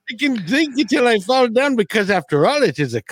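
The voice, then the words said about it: Put-on Indian accent. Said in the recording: “Why am I doing an Indian accent?”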